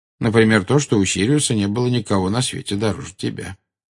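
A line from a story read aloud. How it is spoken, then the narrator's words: Calm. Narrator (Russian): спокойно ответил Дамблдор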